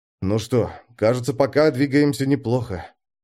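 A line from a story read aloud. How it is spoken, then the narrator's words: Breathy exhale. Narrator (Russian): выдохнул Александр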